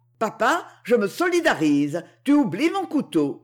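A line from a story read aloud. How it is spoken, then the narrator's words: Shouting. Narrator (French): cria Louis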